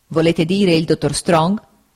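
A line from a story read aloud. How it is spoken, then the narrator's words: Stern interruption. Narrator (Italian): lo interruppe il signor Wickfield in tono severo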